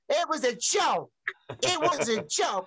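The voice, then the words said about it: Imitates another person's voice. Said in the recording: “That's not a bad impersonation.”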